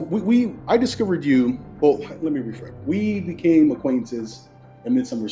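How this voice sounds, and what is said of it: Usual voice. Nothing is said of it.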